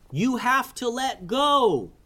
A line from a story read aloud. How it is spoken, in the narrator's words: yelled Kaleo